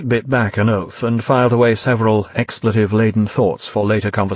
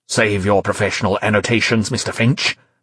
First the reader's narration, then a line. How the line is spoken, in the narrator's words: said Suttler coldly, uninterested in praise for fallible human beings